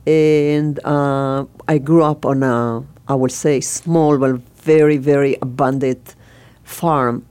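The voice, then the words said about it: Israeli-accented English. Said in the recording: “I can hear from your voice, you're obviously weren't originally from America ... obviously I have an accent. So I'm from Israel.”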